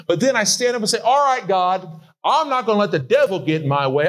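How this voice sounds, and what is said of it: Southern American accent. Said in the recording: “I have a southern accent.”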